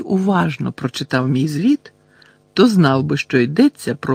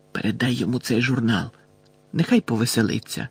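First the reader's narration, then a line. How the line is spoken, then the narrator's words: Whispered. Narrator (Ukrainian): Кінгслі пошепки додав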